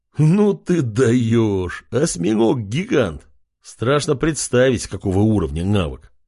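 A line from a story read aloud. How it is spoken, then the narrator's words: Big man laughing loudly. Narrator (Russian): хохотал здоровяк в золотых доспехах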